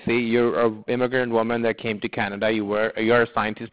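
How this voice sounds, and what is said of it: Non-native English accent. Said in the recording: “you can get it from my accent. I do not have the clear in New York accent”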